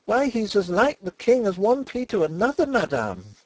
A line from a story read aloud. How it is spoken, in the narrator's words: cried the girl, a little shaken, but still obstinate